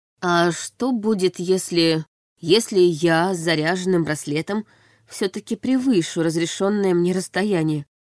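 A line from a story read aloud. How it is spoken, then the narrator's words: Plain. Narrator (Russian): спросила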